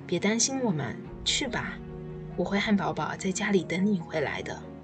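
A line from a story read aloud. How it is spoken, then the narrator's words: Gentle coaxing. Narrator (Chinese): 温柔善良的娜娜劝道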